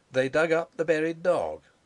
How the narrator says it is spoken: Sapt chuckling convulsively

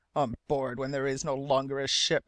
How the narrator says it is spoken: muttered the sealing master

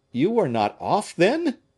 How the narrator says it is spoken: cried he

